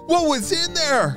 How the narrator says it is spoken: Henry panted to Charlie, trying to catch his breath from the escape and excitement

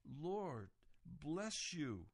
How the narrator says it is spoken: exclaimed

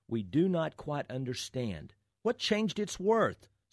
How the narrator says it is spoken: some of them cried

